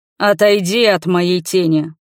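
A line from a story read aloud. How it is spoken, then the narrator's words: Menacing growl. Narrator (Russian): прорычал он угрожающе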